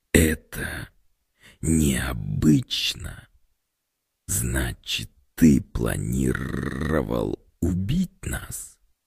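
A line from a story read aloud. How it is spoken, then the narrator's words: Hissing creature. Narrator (Russian): Цветочная голова зашипела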